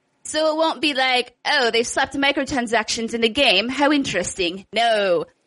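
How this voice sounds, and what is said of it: Muddled mix of British-ish accents. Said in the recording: “Is that your British accent? ... I did like 18 different accents during that. ... You just like mushed them all together and made a noise. ... That was like 18 different accents muddled into one.”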